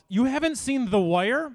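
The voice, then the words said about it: Imitates a stereotypical office worker voice. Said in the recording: “my impression of everyone that's ever worked in an office”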